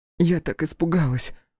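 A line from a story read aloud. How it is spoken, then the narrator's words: Breathless exhale. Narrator (Russian): выдохнула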